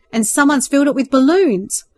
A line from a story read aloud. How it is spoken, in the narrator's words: called out